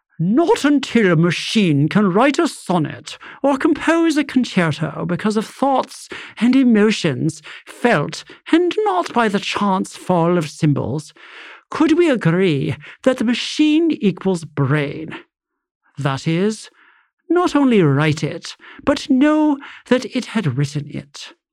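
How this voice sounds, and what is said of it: Posh British accent. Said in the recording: “do it in like a really posh British accent”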